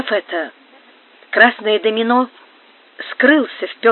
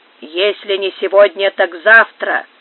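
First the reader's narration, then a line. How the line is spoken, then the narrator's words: Gruff grumble. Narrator (Russian): проворчал грубый голос мексиканца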